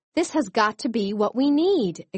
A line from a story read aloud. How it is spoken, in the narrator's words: exclaimed Chenille